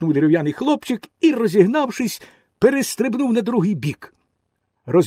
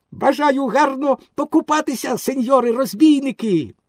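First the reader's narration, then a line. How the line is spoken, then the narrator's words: Joyful exclamation. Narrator (Ukrainian): Пінокіо радісно вигукнув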